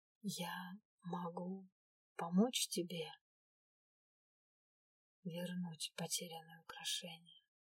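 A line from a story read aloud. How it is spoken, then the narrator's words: Slow whisper. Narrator (Russian): прошептал он медленно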